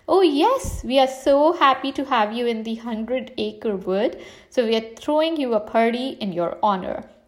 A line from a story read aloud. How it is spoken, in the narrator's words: Pooh said